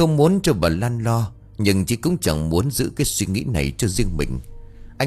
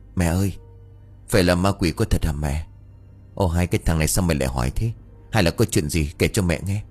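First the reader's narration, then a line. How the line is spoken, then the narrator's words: Whisper. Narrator (Vietnamese): Chí thì thầm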